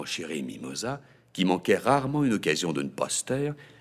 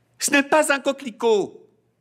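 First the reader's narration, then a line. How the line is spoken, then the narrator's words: Shouting. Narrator (French): cria Magnolia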